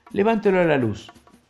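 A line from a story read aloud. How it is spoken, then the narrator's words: Plain. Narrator (Spanish): le dijo Jordán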